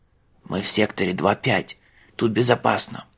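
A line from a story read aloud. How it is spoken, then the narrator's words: Frightened whisper. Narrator (Russian): шепнул летописец, бледный до синевы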